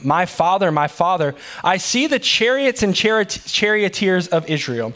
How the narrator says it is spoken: he cried

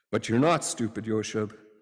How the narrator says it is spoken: Jesus gently said

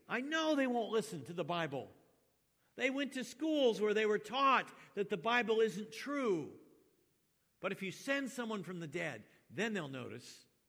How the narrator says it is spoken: The rich man pleads

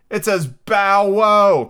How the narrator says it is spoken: cried the daisy

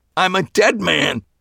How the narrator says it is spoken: repeated, nearly shouting

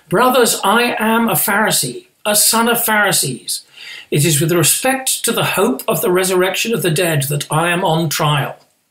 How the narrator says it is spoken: he cried out in the council

